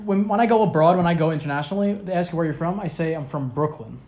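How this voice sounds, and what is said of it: Thick Brooklyn New York accent. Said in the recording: “your fucking accent is thicker than Joe Pesci. They're gonna know that you're from.”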